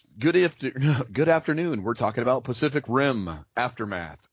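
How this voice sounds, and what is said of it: Announcer-style radio voice with swagger. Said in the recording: “radio voice ... you got to get that certain tone and that swagger in it”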